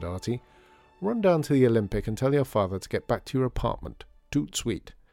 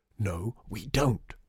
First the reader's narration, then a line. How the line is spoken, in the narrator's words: hissed her father at Lydia